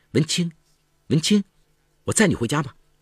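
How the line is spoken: Boy calling out. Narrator (Chinese): 一个男生在窗口叫他

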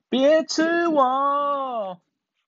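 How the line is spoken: Shrieking mole. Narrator (Chinese): 鼹鼠……尖叫

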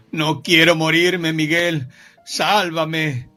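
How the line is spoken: Shout. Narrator (Spanish): Rubén gritó

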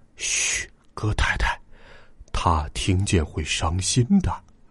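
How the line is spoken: Hushed voice. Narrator (Chinese): 格林先生压低了嗓门

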